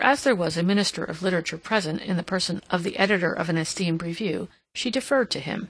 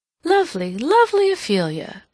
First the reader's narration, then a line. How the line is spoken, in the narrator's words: she exclaimed